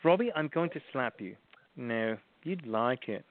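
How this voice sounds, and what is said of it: Put-on British accent. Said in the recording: “I'm just doing the British accent”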